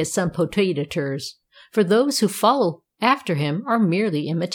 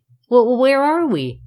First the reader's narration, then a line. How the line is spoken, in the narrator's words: Tom sputtered, blowing the snow out of his mouth